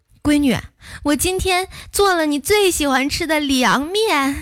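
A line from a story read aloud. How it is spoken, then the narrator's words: Mother calling out. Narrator (Chinese): 老妈喊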